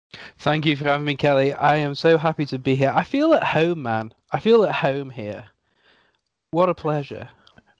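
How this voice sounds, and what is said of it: English Stoke-on-Trent accent. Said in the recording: “an English accent ... I have a Stoke-on-Trent accent, which in the tiers of English accents is somewhere above Scouser”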